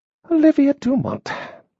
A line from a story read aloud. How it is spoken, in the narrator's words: she muttered almost beneath her breath